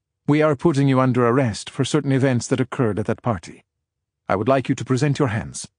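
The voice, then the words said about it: Thick foreign accent. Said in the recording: “his accent thicker than his partner's”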